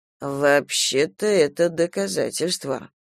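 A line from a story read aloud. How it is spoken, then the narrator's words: Drawled. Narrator (Russian): протянул капитан Скамейкин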